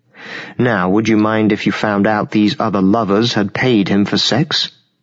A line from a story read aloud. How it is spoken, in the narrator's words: Mary laughed at the idea